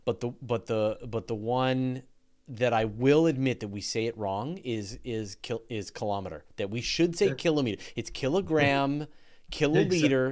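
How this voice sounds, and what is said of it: Canadian accent. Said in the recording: “apologies for my Canadian accent ... a lot of people make fun of me for my Canadian accent, like the way I say lava and the way I say resources”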